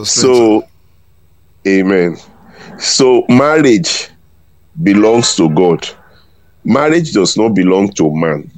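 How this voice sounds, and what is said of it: Voice with a cold. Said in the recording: “my voice may be, I have a little cold. Bit of cold. ... you coughed a bit”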